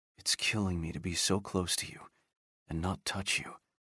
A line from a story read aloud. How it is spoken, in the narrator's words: Jack whispered